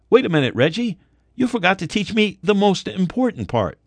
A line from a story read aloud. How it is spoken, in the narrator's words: I called out